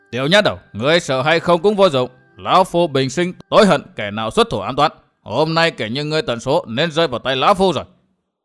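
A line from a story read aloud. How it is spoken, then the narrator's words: Furious roar. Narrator (Vietnamese): Tà Kiếm tự hồ đã nổ khí xung thiên gầm lên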